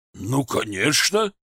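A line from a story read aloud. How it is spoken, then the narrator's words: Puzzled exclamation. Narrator (Russian): непонимающе воскликнул Костелана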